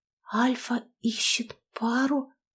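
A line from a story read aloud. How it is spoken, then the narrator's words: Disbelieving whisper. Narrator (Russian): прошептала, не веря своим глазам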